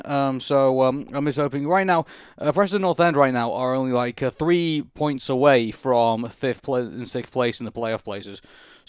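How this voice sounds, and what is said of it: Hoarse, worn-out voice. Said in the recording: “My voice is completely gone after yelling”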